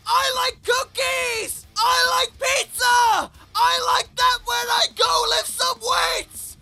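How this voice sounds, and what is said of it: Shouting excitedly. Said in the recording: “Why do I need to keep shouting? Okay, the shouting stops.”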